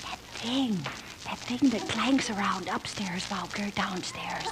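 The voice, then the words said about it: Whispering. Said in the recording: “Then, why are we whispering? ... I don't know why we're whispering.”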